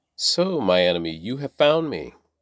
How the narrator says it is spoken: Ahab exclaimed to Elijah

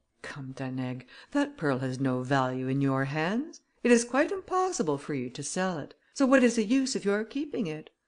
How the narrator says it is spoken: Grimaudan added in a milder tone

